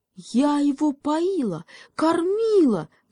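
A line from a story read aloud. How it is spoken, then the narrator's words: Wife wailing. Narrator (Russian): завопила жена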